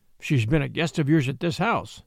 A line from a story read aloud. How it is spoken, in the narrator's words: I answered